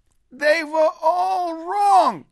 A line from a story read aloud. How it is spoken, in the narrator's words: shouted Moshe Weiss, and his cheeks shone